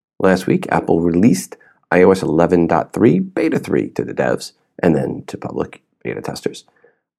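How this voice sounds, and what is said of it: Strained, worn-out voice. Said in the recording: “my voice is shot, because every time I go to a show, I lose my voice ... apologize for my voice”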